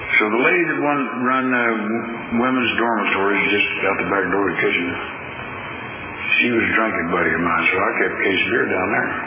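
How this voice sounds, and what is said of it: Slight Oklahoma accent. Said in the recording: “that's what they call me. If you haven't noticed, I got a bit of an accent.”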